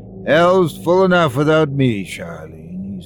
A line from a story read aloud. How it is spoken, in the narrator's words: he said wearily